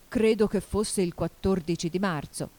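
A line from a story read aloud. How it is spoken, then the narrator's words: Plain. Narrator (Italian): disse il cappellaio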